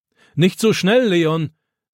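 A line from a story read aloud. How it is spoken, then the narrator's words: Grandfather calling after. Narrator (German): ruft Opa ihm nach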